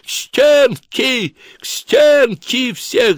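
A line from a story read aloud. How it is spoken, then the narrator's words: Shrieking. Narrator (Russian): завизжал он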